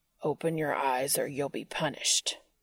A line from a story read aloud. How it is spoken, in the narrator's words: Cass growled